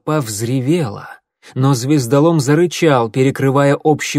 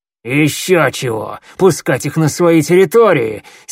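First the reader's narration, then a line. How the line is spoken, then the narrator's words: Angry growl. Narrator (Russian): сердито прорычал коготь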